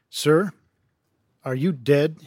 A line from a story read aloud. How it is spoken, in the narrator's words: he asked